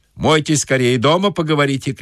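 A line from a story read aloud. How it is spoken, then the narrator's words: Shout. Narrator (Russian): крикнул банщик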